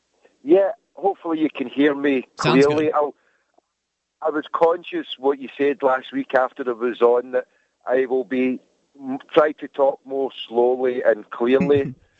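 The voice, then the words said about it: Very thick Scottish accent. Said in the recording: “digging your accent ... it is the most Scottish accent I've heard ... it's thicker than Scrooge McDuck.”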